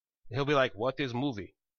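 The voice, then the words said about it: Put-on Russian accent. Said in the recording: “Because he has a Russian accent apparently. ... That's my best accent”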